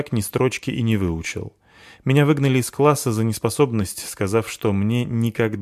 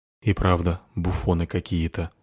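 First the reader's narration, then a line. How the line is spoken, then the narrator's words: Quiet. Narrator (Russian): тихо сказала одна темная фигура другой темной фигуре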